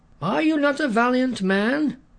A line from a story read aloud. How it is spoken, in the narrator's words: taunted David